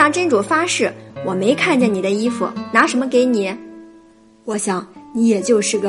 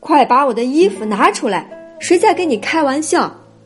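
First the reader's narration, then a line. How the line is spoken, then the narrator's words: Loud angry shout. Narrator (Chinese): 渔夫哈利法大声喝道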